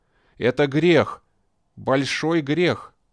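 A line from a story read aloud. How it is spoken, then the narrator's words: Despairing moan, cry, growl. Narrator (Russian): то ли стон отчаяния, то ли крик, то ли какое-то рычание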